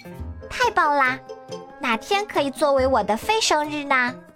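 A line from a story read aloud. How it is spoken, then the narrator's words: Loud shout. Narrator (Chinese): 小公主大叫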